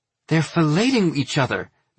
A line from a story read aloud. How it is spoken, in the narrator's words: Min exclaims